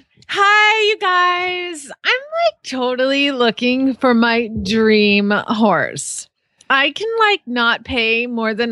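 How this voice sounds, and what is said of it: Put-on teenage girl voice. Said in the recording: “you want the kid voice ... this has to be your best teenage girl voice ... Your best little kid voice”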